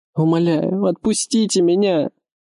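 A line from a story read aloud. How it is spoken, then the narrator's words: Sobbing girl pleading. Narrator (Russian): Девушка рыдала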